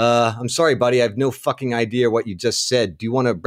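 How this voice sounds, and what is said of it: Usual voice. Nothing is said of it.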